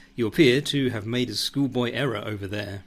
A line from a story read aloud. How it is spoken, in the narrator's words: yells Becky